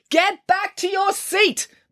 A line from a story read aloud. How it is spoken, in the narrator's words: bellowed Mr